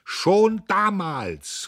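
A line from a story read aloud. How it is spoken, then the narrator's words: Old man calling. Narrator (German): rief der Alte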